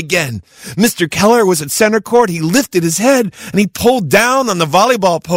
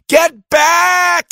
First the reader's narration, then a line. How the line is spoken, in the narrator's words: everyone yelled